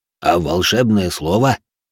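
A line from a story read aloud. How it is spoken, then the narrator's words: Smug snort. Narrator (Russian): хмыкнул Рэй с видом полного превосходства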